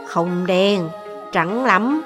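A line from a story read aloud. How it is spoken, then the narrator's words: Muttering. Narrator (Vietnamese): Triển Chiêu tiếp tục lầm bầm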